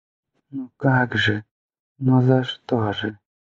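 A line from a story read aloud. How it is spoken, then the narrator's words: Weak muffled whisper. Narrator (Russian): шептала мать, бессильно утыкаясь лбом в плечо мужа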